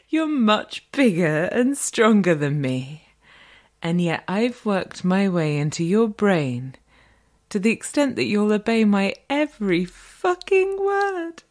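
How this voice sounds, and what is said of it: Refined British accent, woman. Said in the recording (French): “le bel accent britannique et un peu distingué euh, de la dame”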